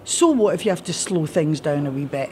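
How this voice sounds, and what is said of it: Broad Scottish accent. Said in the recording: “now I'm going into my own accent”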